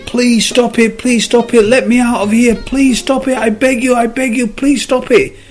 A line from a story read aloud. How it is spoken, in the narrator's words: The cop started screaming